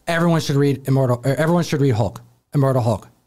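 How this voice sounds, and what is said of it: Impression of a typical reviewer. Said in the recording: “my my impression of a standard reviewer”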